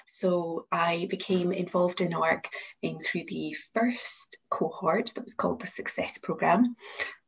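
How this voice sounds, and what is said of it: Glasgow Scottish accent. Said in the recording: “I'm the IP and Innovation Manager at the University of Glasgow, as you can probably tell from my accent.”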